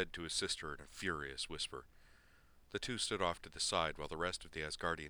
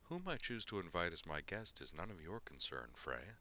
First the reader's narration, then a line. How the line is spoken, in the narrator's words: she said